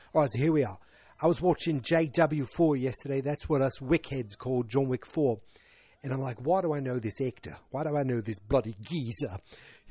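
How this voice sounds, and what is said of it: Deliberately bad put-on British accent. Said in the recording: “I'm going to do the worst British accent you've heard today. Maybe not the worst ever, but the worst you've heard today”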